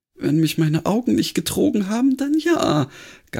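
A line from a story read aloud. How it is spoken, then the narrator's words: Sighing reply. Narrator (German): gab Granny seufzend zurück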